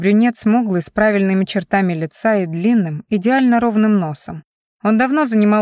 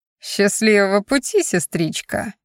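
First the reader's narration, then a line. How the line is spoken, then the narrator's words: Snide singsong. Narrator (Russian): ехидно пропел Джейсон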